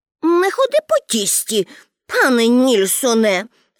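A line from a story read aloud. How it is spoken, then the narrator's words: Angry. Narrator (Ukrainian): сердито сказала Пеппі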